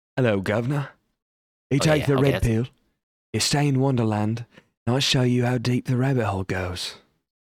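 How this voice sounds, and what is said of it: Cockney accent, slightly Australian-sounding. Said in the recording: “like a Cockney accent on this one ... that sounded so tight ... It was a little Australian, but that was like a Jason Statham flavor”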